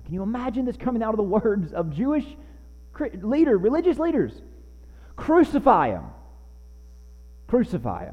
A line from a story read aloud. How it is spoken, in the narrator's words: the chief priests and the officers cried out, saying